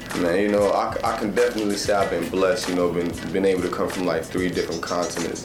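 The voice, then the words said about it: Mixed international accent. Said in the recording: “the accent ... That's why you sound different ... why do you sound different?”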